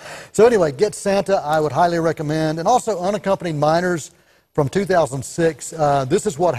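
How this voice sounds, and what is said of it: Usual voice. Nothing is said of it.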